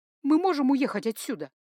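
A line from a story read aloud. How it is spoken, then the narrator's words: Pleading. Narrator (Russian): взмолилась я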